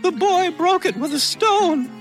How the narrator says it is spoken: shrieked Darcy's wife

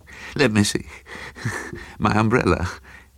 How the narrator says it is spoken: The voice said brokenly

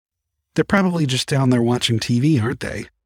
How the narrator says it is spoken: I asked

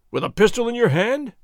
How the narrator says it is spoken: Ramon cried

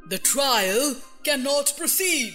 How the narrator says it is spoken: said the king in a very grave voice

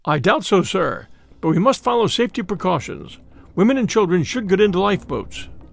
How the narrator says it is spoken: answers, in a calm British voice

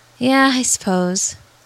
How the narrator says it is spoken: Jack sighed

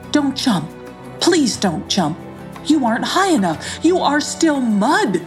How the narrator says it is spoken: he said urgently

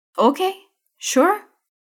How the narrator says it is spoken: Anita says calmly

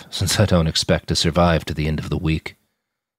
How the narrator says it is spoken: he said with a hollow laugh

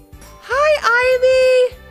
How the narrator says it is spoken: shouted Levi

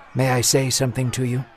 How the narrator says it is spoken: he whispered calmly to the judge

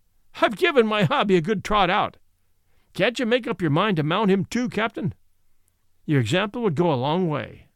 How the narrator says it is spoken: said the master, laughing

